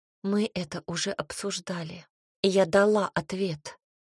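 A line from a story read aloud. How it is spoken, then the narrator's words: Quiet, wary. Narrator (Russian): произнесла тихо, понимая, насколько опасна становится эта ситуация и разговор в целом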